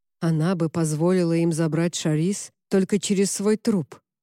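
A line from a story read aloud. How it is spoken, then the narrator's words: Gloomy. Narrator (Russian): мрачно сказал Поль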